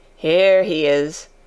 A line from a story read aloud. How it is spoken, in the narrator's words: chuckled the old man